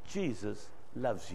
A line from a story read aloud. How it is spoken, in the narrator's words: he just kindly said